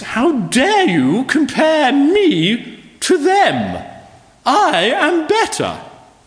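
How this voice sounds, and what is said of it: Put-on posh upper-class accent. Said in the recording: “saying in a posh voice ... that accent”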